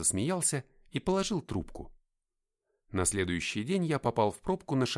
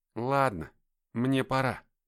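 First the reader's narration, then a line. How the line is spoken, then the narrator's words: Forced out reluctantly. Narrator (Russian): выдавил из себя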